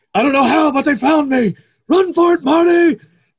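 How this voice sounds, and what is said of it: Imitates a movie character's voice. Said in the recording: “That's a really good Doc impersonation by you, man.”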